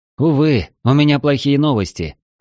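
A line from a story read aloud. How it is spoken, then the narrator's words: Sighing. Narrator (Russian): вздохнул я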